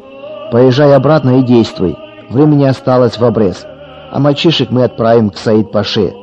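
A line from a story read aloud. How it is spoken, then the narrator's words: Rough command. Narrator (Russian): грубо скомандовал предводитель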